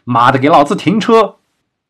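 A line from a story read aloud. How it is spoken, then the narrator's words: Urgent, angry shout. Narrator (Chinese): 王二眼见检查站越来越近，便较为吼道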